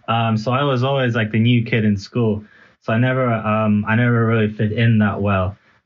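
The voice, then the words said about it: Mixed American-European English accent. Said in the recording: “I learned English in America, that's why my accent's a little bit all over the place”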